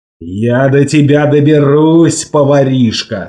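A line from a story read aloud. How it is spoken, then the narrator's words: Plain. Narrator (Russian): сказал он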